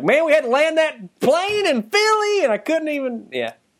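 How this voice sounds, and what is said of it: Exaggerated redneck accent. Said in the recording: “I'm sounding like super redneck right now ... impression ... is pretty close.”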